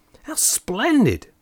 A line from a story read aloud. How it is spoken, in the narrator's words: enthusiastically cried